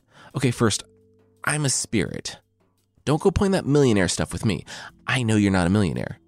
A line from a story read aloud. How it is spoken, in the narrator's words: Jofuku said